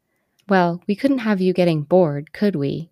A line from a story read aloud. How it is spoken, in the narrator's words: Ynir chuckled